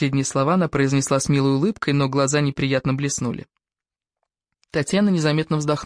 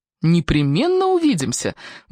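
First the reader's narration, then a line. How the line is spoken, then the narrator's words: Cheerful. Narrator (Russian): бодро ответила Татьяна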